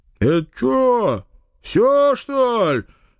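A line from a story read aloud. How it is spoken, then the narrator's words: Displeased male rumble. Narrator (Russian): недовольно прогудел кто-то из мужиков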